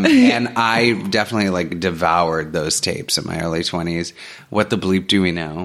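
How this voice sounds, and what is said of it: Usual voice. Nothing is said of it.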